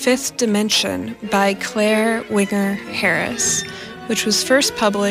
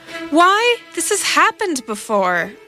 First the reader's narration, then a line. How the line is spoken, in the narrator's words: I cried